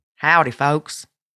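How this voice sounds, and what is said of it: Put-on country accent. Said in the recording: “You didn't like my country accent?”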